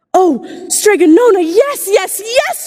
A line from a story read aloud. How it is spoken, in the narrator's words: cried Angelina